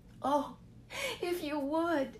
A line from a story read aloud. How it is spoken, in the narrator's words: she sobbed